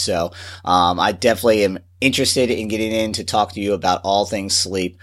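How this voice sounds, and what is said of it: Slightly congested, cold-affected voice. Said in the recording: “my voice is a little bit unusual today because I'm fighting a little bit of a cold”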